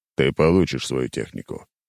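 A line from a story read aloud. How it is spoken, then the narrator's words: Deep bass voice. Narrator (Russian): спустя пару секунд пробасил Зубров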